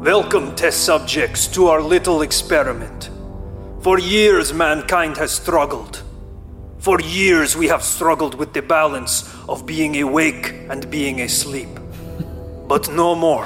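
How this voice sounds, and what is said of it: Low put-on Russian accent. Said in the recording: “I'm have to do a low Russian accent.”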